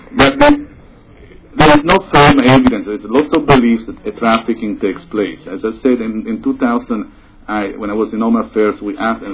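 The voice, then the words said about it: Italian-accented English. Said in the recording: “it's my accent. In Italy”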